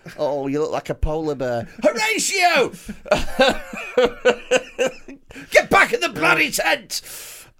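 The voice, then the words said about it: Put-on accent. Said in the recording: “that's such a fun accent to do.”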